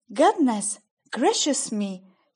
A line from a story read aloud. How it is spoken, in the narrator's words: exclaimed